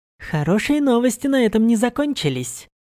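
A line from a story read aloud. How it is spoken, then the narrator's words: Pleased reply. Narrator (Russian): довольным тоном отозвалась Сирена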